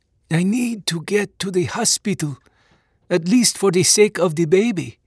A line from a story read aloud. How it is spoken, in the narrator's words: pleaded through blood-dried, swollen lips